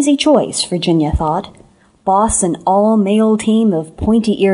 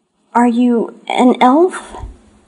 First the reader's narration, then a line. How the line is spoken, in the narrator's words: quavered